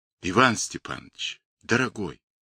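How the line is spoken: Sudden quiet exclamation. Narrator (Russian): Неожиданно и тихо вырвалось у Горелова

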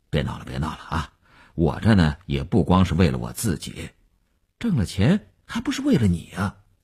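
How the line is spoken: Brief laugh, checked. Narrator (Chinese): 刘文庆笑了一下，及时收住说

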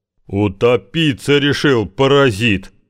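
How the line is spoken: Roar. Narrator (Russian): взревел Шишкарев-старший

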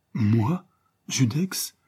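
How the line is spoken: Panicked, bewildered exclamation. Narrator (French): s'exclama l'infortuné Prosper, auquel cette accusation avait achevé de faire perdre la tête

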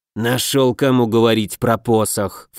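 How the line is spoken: Snort. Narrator (Russian): фыркнул Денебери

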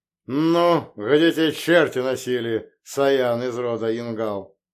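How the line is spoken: Displeased booming drone. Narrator (Russian): недовольно прогудел Утус Райден

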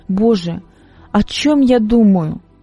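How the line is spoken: Helpless sobbing. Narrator (Russian): Мария начала безвольно рыдать

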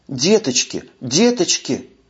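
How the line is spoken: Whisper. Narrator (Russian): шептала она

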